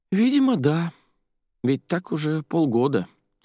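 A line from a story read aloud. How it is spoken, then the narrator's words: Sad sigh. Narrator (Russian): соседка грустно вздохнула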